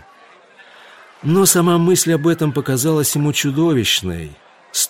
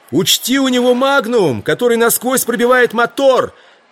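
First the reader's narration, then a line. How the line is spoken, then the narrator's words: Shouted. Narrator (Russian): крикнул ему Кристобедоя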